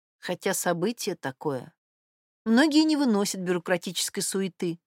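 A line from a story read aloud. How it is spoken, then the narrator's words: Sighing. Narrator (Russian): вздохнула Ирина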